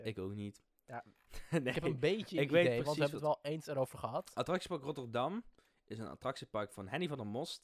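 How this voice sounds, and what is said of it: Limburg Dutch accent. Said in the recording (Dutch): “mijn limburgse accent ... waarom ik dat accent nog steeds heb”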